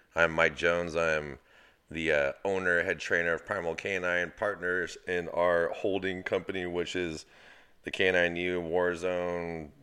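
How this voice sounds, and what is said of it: Flat monotone voice. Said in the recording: “the voice of my monotoneness”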